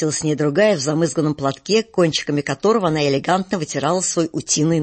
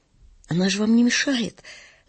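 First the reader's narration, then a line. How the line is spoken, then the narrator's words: Trembling defensive voice. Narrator (Russian): дрожащим голосом вступилась актриса за свою собачищу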